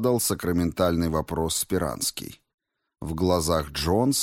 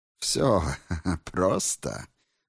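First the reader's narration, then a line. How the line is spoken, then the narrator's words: Laughing. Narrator (Russian): рассмеялся миллиардер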